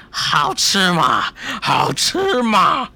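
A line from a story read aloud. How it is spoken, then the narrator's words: Androgynous voice. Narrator (Chinese): 这声音听起来不男不女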